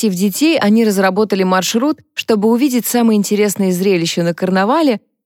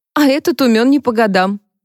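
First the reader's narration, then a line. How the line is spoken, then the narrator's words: Laughing. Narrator (Russian): засмеялась Джонни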